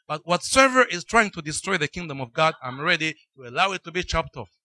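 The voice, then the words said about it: Speaks with an accent. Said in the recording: “I speak with an accent”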